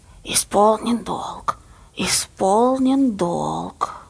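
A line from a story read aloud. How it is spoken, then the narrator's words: Old woman hissing offstage. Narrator (Russian): Баба Лиза шипела из-за кулис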